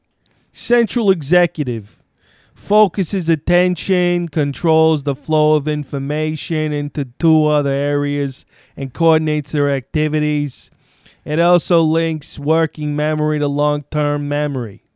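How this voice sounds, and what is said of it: Put-on Brooklyn accent. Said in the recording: “Can the Brooklyn accent read the working memory components?”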